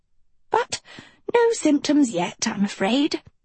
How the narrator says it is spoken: she sighed

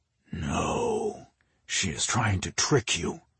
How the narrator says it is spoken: a voice hissed in his head

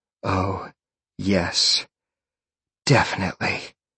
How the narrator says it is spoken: she panted

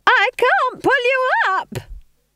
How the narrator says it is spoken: screamed

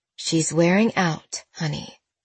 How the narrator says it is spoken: Mel said softly

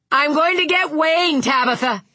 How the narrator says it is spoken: Vic shouted

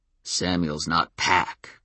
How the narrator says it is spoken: growled Daryl

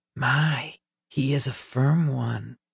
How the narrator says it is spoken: whispered the first

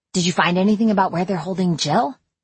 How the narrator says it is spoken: I asked eagerly

